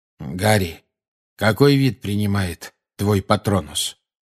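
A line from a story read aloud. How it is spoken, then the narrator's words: Plain. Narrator (Russian): спросил Люпин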